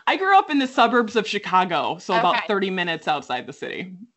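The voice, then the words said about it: Midwestern American accent. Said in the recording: “Like Midwest. ... Midwest. ... I hear the accent. I love it.”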